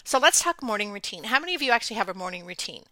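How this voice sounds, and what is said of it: Hoarse, congested voice with throat clearing. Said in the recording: “you'll have to excuse my voice and my clearing of my throat. I'm getting over a head cold”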